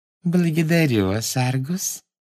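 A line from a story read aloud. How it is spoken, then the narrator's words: Sweet little voice. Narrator (Russian): сладким голоском сказала она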